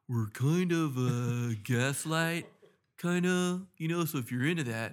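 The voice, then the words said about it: Imitates another person's voice. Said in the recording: “that's my Gabe impression”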